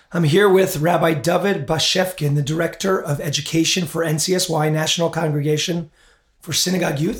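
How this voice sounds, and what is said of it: Hoarse, strained voice. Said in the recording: “actually your horse host, lost my voice”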